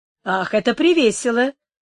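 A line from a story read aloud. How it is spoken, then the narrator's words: Exclamation. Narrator (Russian): воскликнула Инес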